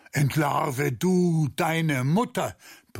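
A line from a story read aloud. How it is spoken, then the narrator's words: Roared. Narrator (German): brüllte er von der Türschwelle zurück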